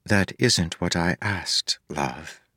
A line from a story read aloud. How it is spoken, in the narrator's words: she said softly